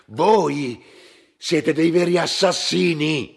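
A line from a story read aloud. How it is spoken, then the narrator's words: Shouted. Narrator (Italian): gridò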